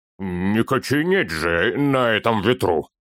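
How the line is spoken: Snapping. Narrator (Russian): огрызнулся Торин

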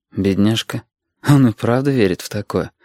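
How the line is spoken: Inward sigh, unspoken thought. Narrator (Russian): вздохнул про себя Валентин

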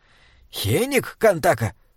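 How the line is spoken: Hiss. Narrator (Russian): прошипел Бинбек

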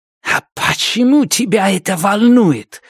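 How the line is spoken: Hissing. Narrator (Russian): зашипела Амитав

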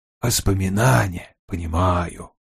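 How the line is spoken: Whisper. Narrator (Russian): Вульф прошептал

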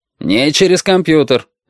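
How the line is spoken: Father barking. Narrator (Russian): рявкнул отец

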